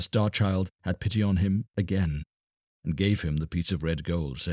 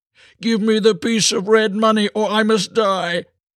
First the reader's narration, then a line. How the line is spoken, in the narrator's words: the leper cried out and said